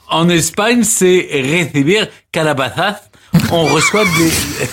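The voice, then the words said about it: Put-on Spanish accent. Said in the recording (French): “Plus vous faites l'accent, plus c'est merveilleux”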